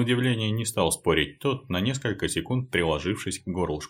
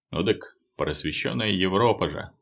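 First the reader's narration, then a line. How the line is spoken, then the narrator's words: Snorting. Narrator (Russian): хмыкнул Алексей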